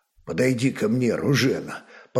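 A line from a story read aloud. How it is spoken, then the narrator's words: Quiet call, warrior. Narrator (Russian): позвал тихо воин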